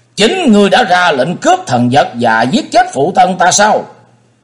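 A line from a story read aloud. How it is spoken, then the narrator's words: Loud shout. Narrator (Vietnamese): Vị đầu thái tử quát lớn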